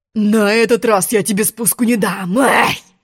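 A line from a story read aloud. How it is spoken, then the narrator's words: Lion's roar. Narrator (Russian): Рыкнул лев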